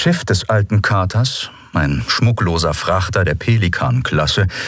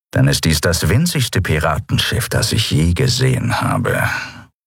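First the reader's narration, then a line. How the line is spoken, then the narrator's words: Grumbling. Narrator (German): brummte Charsu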